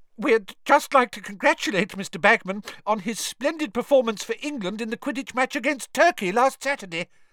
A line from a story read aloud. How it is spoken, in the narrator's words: the witch said breathlessly